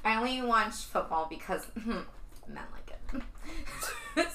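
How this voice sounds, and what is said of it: Sorority girl voice impression. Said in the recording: “That was my impression of a sorority girl talking.”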